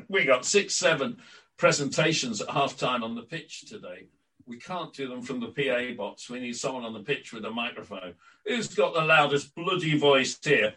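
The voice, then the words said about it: Imitated Yorkshire accent. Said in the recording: “Colin Hutchinson came out and said ... in his Yorkshire accent”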